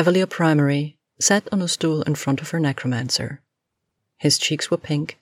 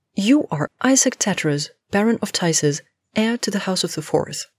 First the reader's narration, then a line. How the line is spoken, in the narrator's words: Jean exclaimed